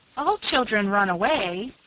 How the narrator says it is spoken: pleaded Nan, as if it was as natural and necessary a thing as measles or whooping cough

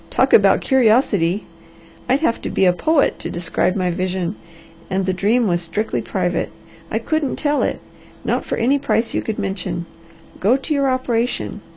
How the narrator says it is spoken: laughed the Harvester

